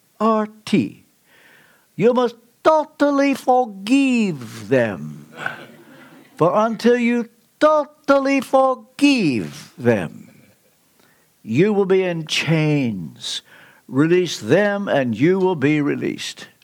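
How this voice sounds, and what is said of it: Imitated Romanian accent. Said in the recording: “in his Romanian accent, something like this.”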